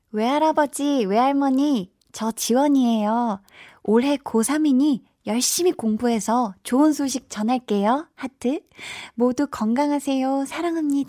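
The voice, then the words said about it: Cute schoolgirl voice. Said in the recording (Korean): “귀여운 여학생 목소리로 부탁을 하셨는데 ... 귀여운 여학생 목소리가”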